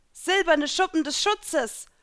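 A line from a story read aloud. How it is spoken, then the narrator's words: Calling out. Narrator (German): rief ich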